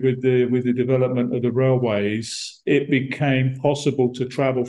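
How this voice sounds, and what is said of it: London-like English accent. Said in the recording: “I'm from Brighton ... my accent, it's very Brighton is London overspill ... the accent in Brighton is pretty much the same as maybe a little bit different, but more or less the same as”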